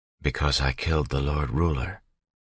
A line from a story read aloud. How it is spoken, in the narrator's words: she said quietly